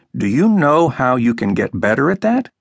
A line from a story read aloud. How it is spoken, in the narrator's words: calmly asked